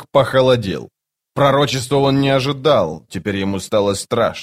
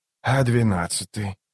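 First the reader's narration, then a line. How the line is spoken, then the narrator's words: Quiet, almost whispered question. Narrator (Russian): спросил он тихо, почти шепотом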